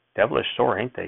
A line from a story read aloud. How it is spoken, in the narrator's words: she asked